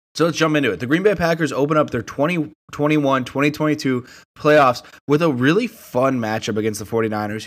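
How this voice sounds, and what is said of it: Slightly off, cold-affected voice. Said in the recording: “apologize for my voice a little bit. I have a little bit of a cold ... if I sound a little bit off”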